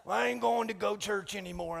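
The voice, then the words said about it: Put-on accent. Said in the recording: “That's my go-to accent”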